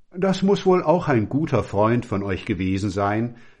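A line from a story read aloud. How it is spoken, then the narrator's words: Plain. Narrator (German): sagte er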